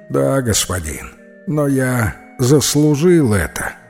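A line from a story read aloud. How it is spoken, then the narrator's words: Plain. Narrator (Russian): ответил нищий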